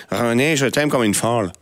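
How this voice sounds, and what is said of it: Put-on slight Québécois accent. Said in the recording (French): “je voulais faire l'accent pour la chronique ... l'accent un petit peu québécois”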